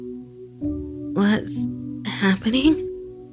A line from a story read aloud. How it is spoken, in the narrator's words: she groaned